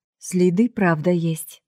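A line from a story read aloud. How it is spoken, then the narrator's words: Plain. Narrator (Russian): ответил парень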